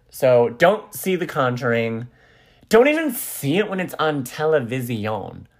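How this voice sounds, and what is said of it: Loud, near-yelling speech. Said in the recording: “I'm talking too loud and yelling ... I'm holding the phone up like I'm on a speakerphone call ... yelling too much”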